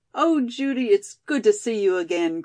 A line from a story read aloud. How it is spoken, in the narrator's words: cried Molly